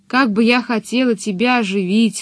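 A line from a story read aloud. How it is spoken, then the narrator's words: Bitter sigh. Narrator (Russian): сказала чудовище и горько вздохнула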